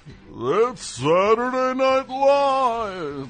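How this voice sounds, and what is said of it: Don Pardo announcer impression. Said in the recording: “You all know Don Pardo, the guy who does who did the announcing on Saturday Night Live”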